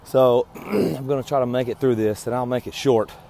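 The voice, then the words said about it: Strained, unwell-sounding voice. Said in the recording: “Sorry for my voice. I think it's getting worse.”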